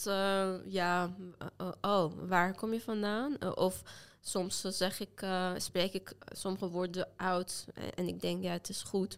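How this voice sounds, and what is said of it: Light non-native Dutch accent. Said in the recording (Dutch): “je spreekt ook niet met heel zwaar accent ... typisch Persisch accent heb ik niet ... Ik heb een accent”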